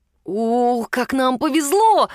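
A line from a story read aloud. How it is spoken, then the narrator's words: Exclamation. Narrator (Russian): воскликнул Алекс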